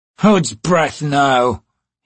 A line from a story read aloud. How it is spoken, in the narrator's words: he sneered